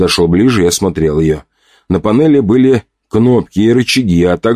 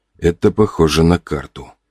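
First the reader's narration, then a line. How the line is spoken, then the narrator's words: Muttering. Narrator (Russian): пробормотал я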